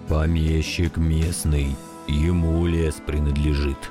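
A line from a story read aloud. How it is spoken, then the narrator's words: Muffled hollow voice. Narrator (Russian): глухо ответил дядя Миша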